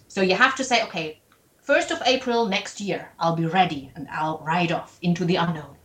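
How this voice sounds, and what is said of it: German accent in English. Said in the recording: “I hope you liked my German accent”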